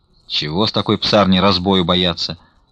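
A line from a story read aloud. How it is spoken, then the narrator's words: Grumbling. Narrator (Russian): ворчал не уходившийся еще Потап Максимович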